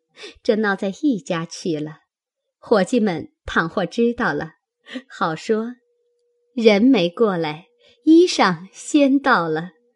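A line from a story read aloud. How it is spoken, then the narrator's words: Laughing. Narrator (Chinese): 宝钗笑道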